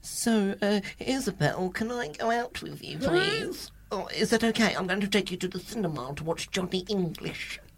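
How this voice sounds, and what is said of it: Imitates another person's voice. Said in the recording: “Was that a perfect impression?”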